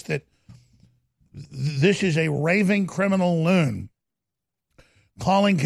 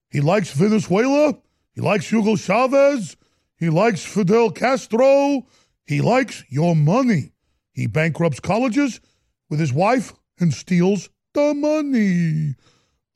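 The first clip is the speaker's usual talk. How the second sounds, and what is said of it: Impression of a politician's voice. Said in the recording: “I'm going to stop doing his voice.”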